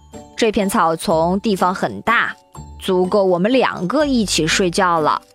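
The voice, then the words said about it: Loud, bold speaking voice. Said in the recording (Chinese): “大声对狮子说”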